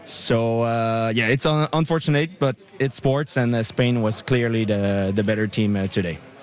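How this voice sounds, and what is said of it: Quebecois French-accented English. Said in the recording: “you have a Quebecois accent.”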